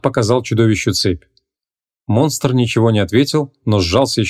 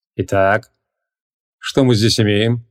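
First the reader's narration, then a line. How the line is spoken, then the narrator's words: Smirking grunt. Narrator (Russian): хмыкнул Креол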